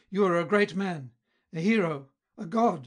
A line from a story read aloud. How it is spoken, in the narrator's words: cried Lamport excitedly